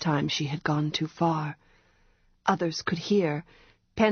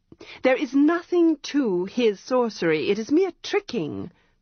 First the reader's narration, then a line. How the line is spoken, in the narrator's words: the girl said, raising her voice